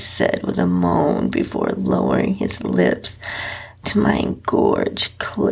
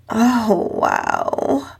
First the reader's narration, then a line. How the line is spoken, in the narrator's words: moaned out